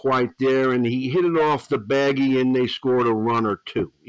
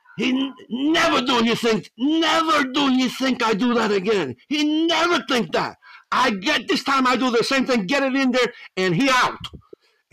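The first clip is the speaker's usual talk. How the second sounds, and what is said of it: Put-on Spanglish accent. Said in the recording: “I'm going to try to do this in my Spanglish accent.”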